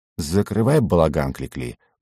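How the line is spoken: Grumbling. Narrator (Russian): буркнул я шуту

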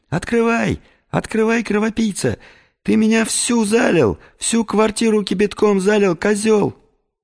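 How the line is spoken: Woman's shrill squealing. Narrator (Russian): женщина, повизгивая при этом

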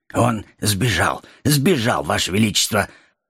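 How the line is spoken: Forced out, ashamed. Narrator (Russian): Потупившись, выдавил Щур

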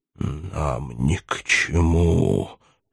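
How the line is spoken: Hoarse, losing composure. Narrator (Russian): плохо владея собою, и хрипло отвечал черноусый

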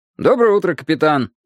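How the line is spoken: Cheerful. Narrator (Russian): бодро произнес он

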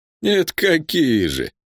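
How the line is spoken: Laughing. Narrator (Russian): Танджи снова рассмеялся

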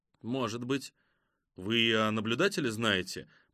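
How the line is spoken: Muttering. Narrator (Russian): пробормотал Керри Йос

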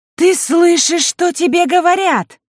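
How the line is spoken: Shrill shriek like hurt cat. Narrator (Russian): завизжала Элина, как кошка, которой наступили на хвост

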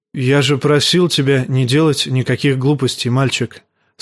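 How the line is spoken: Plain, old bear. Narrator (Russian): сказал старый медведь

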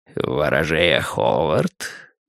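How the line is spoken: Smooth, insinuating. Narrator (Russian): вкрадчиво сказал он

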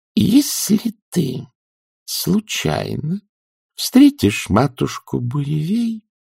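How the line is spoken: Slow, icy voice. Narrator (Russian): медленно произнесла Маград, таким голосом, от которого каждое слово стекленело на лету

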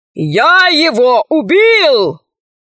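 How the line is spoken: Shouting. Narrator (Russian): закричал он

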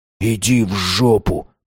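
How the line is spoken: Whispered. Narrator (Russian): прошептал он

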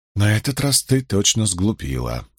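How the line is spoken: Grumbling. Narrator (Russian): ворчала Илэйн

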